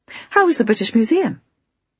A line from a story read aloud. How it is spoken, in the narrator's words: I said cheerfully